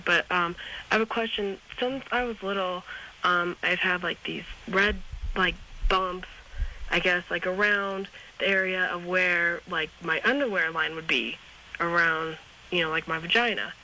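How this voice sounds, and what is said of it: Sick, rough-sounding voice. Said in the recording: “If you'll excuse my voice, I got a little bit of a crud.”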